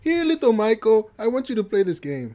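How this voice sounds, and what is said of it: Put-on Middle Eastern Italian accent. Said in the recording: “What accent is that? ... It was like a Middle Eastern Italian accent. ... I thought it was Bugs Bunny.”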